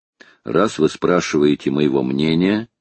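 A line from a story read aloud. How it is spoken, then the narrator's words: Plain. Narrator (Russian): ответил Макнапс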